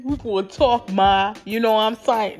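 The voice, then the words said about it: Poor attempt at New York accent. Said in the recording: “look at me trying to do a New York accent... No, that's not how it goes. How you gonna do a New York accent?”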